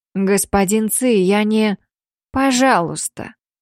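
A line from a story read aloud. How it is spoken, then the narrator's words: Soft but firm interruption. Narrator (Russian): перебил он мягко, но при этом давая понять, что не хочет слышать какие-то оправдания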